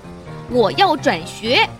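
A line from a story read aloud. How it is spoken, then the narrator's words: Loud announcement. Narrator (Chinese): 本 大声宣布道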